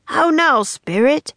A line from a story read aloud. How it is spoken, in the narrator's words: Puck shouted even louder this time